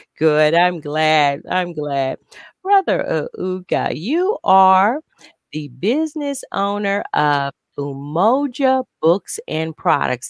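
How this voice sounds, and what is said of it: Southern Missouri drawl. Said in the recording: “I have a Southern Missouri drawl. That's kind of my conversation has a Southern Missouri drawl.”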